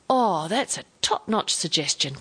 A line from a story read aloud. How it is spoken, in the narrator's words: cried Alex gratefully